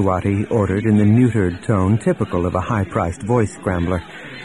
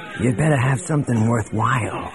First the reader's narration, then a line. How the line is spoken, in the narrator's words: he hissed